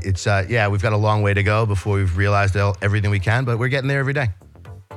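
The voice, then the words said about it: New York accent. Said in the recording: “I'm from New York, in case you can't tell from my accent.”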